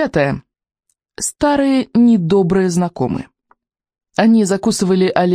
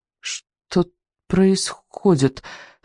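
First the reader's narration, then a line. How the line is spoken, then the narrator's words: Stammering question. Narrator (Russian): заикаясь, спросил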